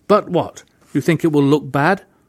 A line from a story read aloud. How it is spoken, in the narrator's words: said sharply